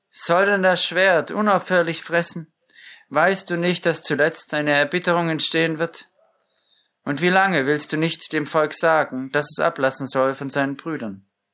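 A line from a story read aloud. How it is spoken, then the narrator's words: Called out. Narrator (German): rief Abner dem Joab zu und sprach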